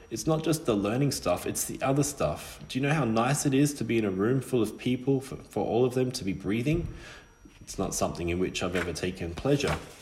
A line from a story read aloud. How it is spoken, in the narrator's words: said Silas